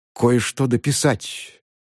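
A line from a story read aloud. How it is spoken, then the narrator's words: Half-questioning whisper. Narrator (Russian): прошептал полувопросительно Цинцинат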